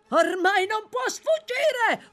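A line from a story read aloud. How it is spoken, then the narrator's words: Man yelling. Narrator (Italian): urlò un uomo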